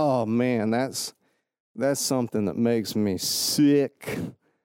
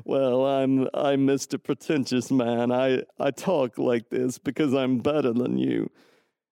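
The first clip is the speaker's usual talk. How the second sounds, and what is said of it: Snooty pretentious character voice. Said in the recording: “did that voice even come from? ... Sometimes I pretend like I'm pretentious.”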